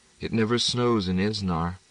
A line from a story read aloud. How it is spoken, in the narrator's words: Cousin Betta was so upset that Pierre raised the window again, only murmuring